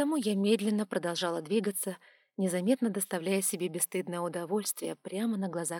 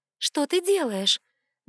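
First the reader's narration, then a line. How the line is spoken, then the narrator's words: Mock indignant question. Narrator (Russian): наигранно возмущенно спросила я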